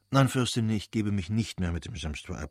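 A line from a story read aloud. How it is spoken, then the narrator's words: Plain. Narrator (German): sagte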